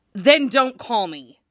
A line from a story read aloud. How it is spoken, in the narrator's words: Jason barked angrily